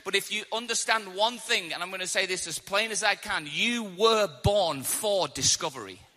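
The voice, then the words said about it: English accent, slow clear speech. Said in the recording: “I came all the way from England, and I'm hoping that I'm speaking slow enough and clear enough for you to understand my accent”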